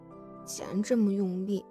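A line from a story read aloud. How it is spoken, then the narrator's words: Quiet muttering. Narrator (Chinese): 苏荣小声嘀咕道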